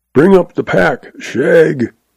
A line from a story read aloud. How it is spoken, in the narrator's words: All Zeb has to do is to holler